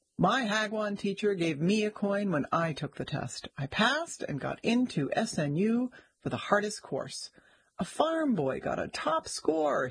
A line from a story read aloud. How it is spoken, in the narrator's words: he said, laughing